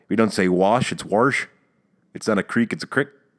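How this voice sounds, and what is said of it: Put-on Dundalk local accent. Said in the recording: “you got the Dundalk ... It is one of the strangest accents you could ever hear in your life.”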